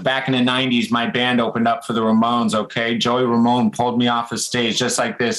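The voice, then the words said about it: Put-on New York accent. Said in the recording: “he's just got such a New York accent.”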